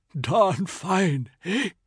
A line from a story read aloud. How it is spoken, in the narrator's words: Uncle Puffs whispered